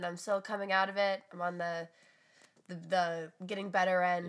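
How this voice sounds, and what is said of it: Sick-sounding voice. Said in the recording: “as you can tell by my voice, I'm sick”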